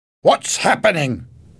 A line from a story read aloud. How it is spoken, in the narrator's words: asked angrily